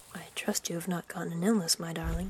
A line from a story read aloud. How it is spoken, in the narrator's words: murmured Bernard